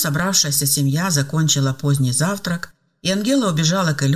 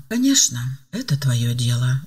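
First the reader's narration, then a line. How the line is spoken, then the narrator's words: Sighing older woman. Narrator (Russian): вздохнула пожилая женщина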